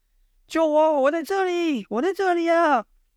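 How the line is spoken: Desperate cry for help. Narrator (Chinese): 那些俘虏，看到自己的亲人，就立刻喊道

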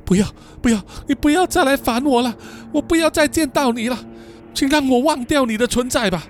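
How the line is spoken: Girl pleading repeatedly. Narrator (Chinese): 丫头不断哀求的说

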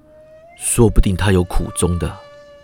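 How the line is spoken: Soft sigh, murmuring. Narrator (Chinese): 郑恒洲轻叹一声，喃喃说道

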